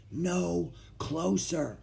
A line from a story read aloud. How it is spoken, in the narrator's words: Jack whispered